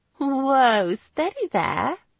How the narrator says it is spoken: Giggling

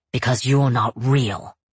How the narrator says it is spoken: he snarls

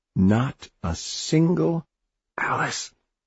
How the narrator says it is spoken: Oliver gasped

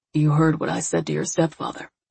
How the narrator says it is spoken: He grew somber, and then he murmured

